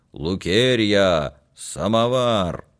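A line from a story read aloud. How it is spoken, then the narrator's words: Hoarse shout through house. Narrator (Russian): барину хрипло крикнуть на весь дом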